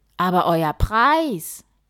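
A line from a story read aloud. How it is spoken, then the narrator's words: King calling. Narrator (German): rief der König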